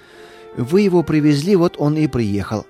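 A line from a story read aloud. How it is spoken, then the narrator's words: Calm reply, woman. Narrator (Russian): спокойно ответила жена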